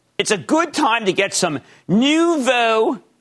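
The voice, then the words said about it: Put-on Philadelphia accent. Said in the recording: “That's my Philadelphia accent.”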